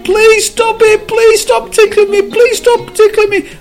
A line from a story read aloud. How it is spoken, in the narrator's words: as he was being tickled, the cup screamed